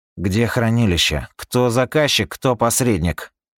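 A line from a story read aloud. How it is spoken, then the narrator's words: Cold question, young man. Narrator (Russian): Холодным тоном спросил парнишка Кувацопа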